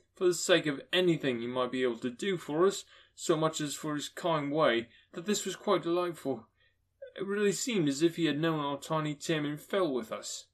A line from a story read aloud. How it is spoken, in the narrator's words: cried Bob